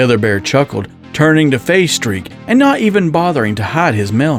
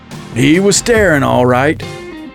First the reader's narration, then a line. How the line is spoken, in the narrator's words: the white bear chuckled